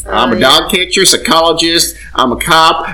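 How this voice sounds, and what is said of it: Put-on Southern American accent. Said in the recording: “I don't know why I have a southern accent, because I'm from Nebraska and I shouldn't”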